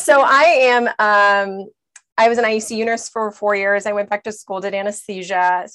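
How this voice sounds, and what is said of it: Voice still recovering, not normal. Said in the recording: “my voice is still recovering from last week. So yeah, this is not normal”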